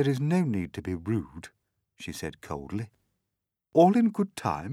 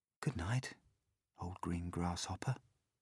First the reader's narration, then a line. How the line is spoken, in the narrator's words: he whispered